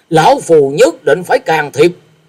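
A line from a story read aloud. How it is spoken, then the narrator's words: Angry snort. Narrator (Vietnamese): Như Ý Tẩu Đông Phương Húc tức giận hừ lên một tiếng và nói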